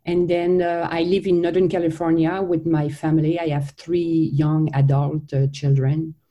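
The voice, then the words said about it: French-Canadian accent. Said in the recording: “you are French-Canadian ... That's where we're getting the beautiful accent ... that has this amazing accent”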